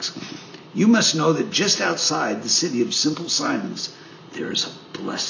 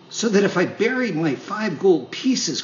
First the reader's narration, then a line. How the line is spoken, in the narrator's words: cried Pinocchio with growing wonder